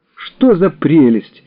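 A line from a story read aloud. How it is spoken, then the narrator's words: Exclamation. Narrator (Russian): воскликнула Елена Васильевна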